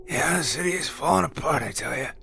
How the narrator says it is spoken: he croaked

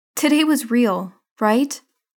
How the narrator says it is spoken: Rio asks, her voice worried

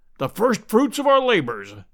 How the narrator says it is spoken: said Challenger in his booming, pedantic fashion

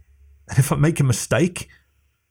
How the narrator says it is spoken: She laughed again

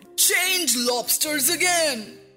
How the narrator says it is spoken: yelled the Gryphon at the top of his voice

